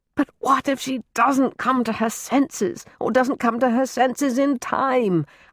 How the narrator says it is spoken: howled some primal part of him, all but trembling in angst

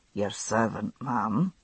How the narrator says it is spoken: murmuring

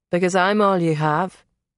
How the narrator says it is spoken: he said in that warm accent

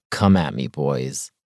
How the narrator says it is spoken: I rumble under my breath

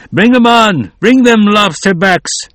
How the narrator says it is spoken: shouted out

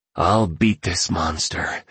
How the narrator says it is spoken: whispered to himself

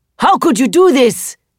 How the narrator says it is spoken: I shout

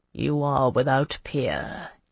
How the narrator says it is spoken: he murmured to her

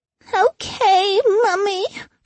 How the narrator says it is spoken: she whined

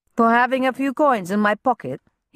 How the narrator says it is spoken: he chuckled

